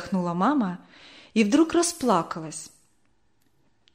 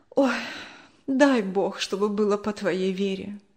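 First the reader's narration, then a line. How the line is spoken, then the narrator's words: Sighed. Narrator (Russian): вздохнула она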